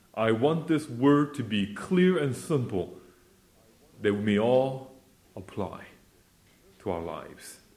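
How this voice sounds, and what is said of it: Non-British accent. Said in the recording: “my accent is a bit different than British accent”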